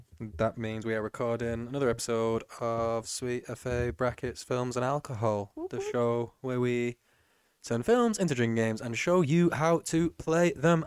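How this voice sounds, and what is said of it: Flat monotone robotic voice. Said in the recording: “my monotone voice? ... The impression of ... Siri.”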